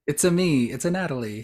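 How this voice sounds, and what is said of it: Mario-style Italian accent imitation. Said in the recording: “talk like Mario ... Italian accent is not good. It's about as good as Mario's.”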